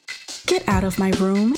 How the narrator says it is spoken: she said in the same newscaster voice she was reading in

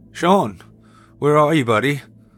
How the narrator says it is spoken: I called out, and now aware of the anxiety bubbling within me

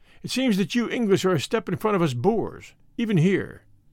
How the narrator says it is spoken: Dinjan exclaimed with a grunt

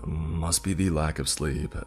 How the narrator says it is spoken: I chuckled to myself

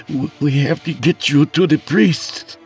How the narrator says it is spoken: I stuttered feebly

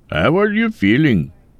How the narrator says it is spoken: Mike laughed

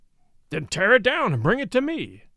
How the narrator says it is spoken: cried the Baron

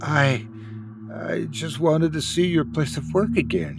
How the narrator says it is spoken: she croaked

